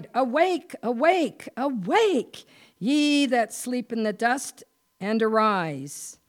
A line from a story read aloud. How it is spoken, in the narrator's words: cried